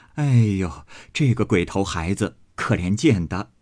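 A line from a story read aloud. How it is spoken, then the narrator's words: Several voices together. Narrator (Chinese): 薛姨妈等都说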